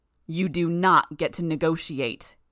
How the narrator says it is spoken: Armsmaster roared

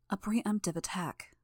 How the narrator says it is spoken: Narwhal said, her voice quiet

